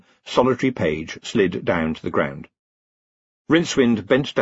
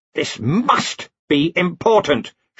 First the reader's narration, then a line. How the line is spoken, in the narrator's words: she snapped